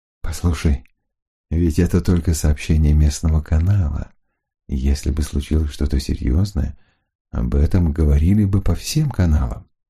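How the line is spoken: Tender whisper. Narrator (Russian): нежно, как умел только он один, зашептал

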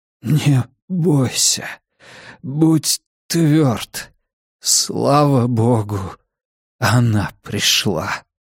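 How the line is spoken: Breathed out. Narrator (Russian): Выдохнул Китс

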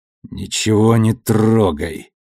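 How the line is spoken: Strained, painful throat. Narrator (Russian): Сквозь боль в горле выдавила Мелба

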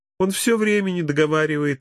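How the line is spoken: Laughing. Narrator (Russian): рассмеялась Эльвира

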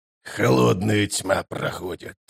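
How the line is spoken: Grumbling mutter. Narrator (Russian): пробурчал он

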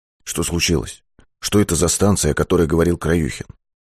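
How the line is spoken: Low-voiced question. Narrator (Russian): Быков спросил вполголоса

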